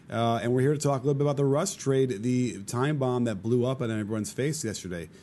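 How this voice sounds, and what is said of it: Slightly worn, strained voice. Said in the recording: “We are post-Vegas trip. My voice is a little bit worse for the wear”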